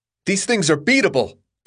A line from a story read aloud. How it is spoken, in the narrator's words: Thomas shouted